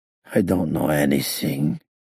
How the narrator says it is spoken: he said gloomily

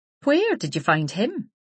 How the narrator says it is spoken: Isabel laughed

